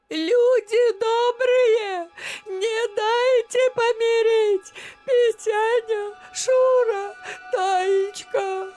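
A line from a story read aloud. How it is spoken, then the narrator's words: Stunned old woman's faltering shout. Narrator (Russian): Баба Дуня запнулась, словно ошеломленная, и закричала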